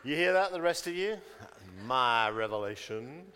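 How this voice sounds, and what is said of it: Put-on American accent. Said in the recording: “Why did I do that with an American accent? ... It just popped out.”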